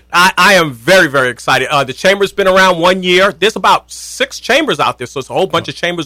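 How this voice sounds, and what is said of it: Brooklyn accent. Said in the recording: “that Brooklyn accent ... haven't lost my accent”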